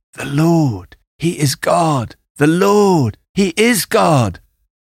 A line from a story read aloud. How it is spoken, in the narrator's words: all the people … cried